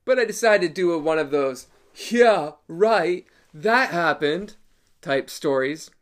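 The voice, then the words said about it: Wayne's World impression. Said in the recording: “That was my Wayne's World impersonation”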